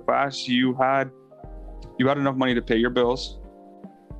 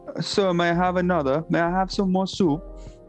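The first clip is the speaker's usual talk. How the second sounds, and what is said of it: Odd put-on accent, Dobby-like voice. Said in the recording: “What the fuck was that accent? ... This man turned into Dobby.”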